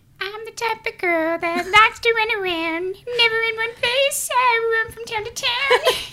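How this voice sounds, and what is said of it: Singing in a Whoville Who voice. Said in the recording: “I sing in a Who voice ... like who's from voice? Whoville.”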